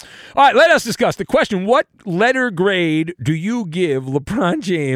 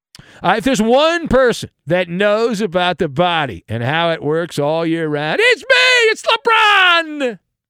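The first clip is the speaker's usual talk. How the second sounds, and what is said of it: LeBron James impression. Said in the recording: “How am I doing, by the way? Is my LeBron impersonation”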